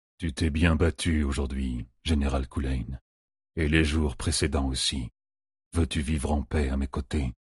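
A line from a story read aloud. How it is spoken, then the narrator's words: Dying laugh. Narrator (French): En exhalant le dernier soupir, il rit à la face d'Arthur Eldefaucon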